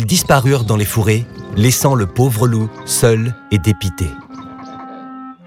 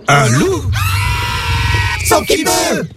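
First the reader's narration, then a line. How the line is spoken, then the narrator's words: Terrified animals screaming. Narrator (French): hurlèrent les animaux terrorisés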